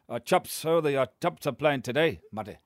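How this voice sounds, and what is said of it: Put-on Scottish accent. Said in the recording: “That was Scottish.”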